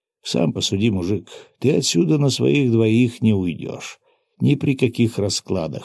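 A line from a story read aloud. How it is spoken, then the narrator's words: Calm matter-of-fact statement. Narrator (Russian): спокойным тоном констатировал я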